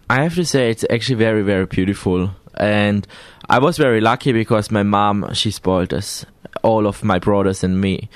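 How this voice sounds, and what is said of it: Austrian-accented English. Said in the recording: “you are obviously from Austria. We can tell from the accent.”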